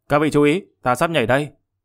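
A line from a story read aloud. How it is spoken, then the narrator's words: Angry snort, loud shout. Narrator (Vietnamese): Hắn tức giận hừ lên một tiếng, lớn tiếng kêu to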